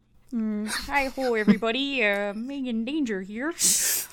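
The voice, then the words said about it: Attempted Kermit voice, sounds Wisconsin. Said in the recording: “Do your Kermit impression. ... I said Kermit, not Wisconsin.”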